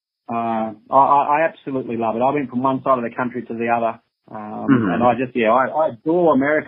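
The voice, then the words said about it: Australian accent. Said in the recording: “they heard Australian accent”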